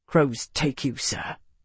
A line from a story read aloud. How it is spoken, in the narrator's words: Marcus said quietly